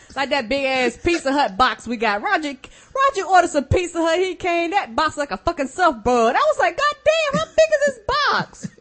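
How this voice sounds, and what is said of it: Country accent. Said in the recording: “speak country”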